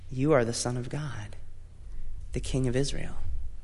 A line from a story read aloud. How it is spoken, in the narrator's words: Out of respect and more than a little fear, Nathanael very softly said